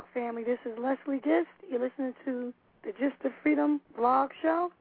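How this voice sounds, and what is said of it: Hoarse voice. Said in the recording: “my hoarse voice ... the hoarseness”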